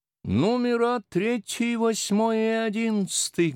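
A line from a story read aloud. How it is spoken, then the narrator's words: Loud and clear, young woman. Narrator (Russian): громко и отчетливо произнесла одна из молодых особ в коричневом платье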